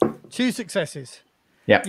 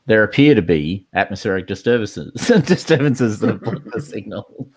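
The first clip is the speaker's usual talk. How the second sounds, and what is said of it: Imitates another person's voice. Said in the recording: “In my best Sigourney Weaver voice.”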